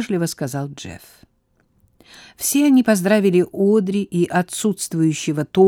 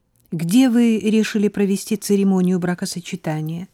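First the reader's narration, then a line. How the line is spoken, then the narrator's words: Plain question. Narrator (Russian): спросила она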